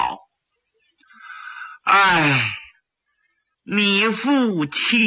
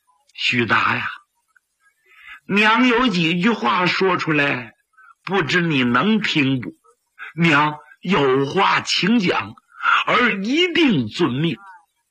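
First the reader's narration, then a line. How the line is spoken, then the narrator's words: Old woman sighing. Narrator (Chinese): 老夫人长叹了一声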